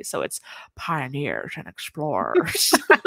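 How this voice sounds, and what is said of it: Matthew McConaughey impression. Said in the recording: “he says it like Matthew McConaughey ... my Matthew McConaughey impression”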